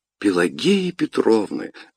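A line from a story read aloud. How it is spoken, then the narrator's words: Delighted exclamation. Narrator (Russian): воскликнул с восторгом Бубновы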